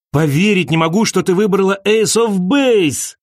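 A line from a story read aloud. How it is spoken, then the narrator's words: Shouting. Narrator (Russian): крикнул он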